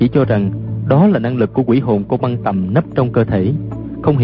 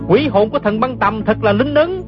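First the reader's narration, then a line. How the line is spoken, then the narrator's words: Delighted shout. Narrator (Vietnamese): không nén nổi sung sướng, la lên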